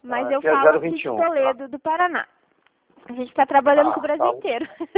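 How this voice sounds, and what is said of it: Regional Brazilian Portuguese accent. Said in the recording (Portuguese): “O sotaque de você tô notando mesmo”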